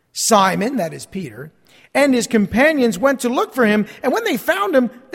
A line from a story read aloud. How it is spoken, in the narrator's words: they exclaimed